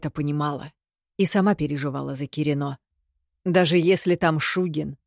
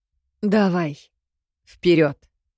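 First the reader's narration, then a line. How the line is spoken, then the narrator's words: Breathy, encouraging. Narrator (Russian): выдохнул Таша и ободряюще улыбнулся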